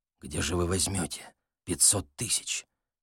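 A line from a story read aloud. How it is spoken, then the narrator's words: Quiet question. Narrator (Russian): тихо спросил Балаганов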